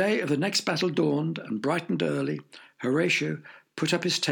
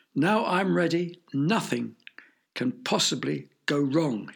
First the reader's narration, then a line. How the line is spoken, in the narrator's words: cried triumphantly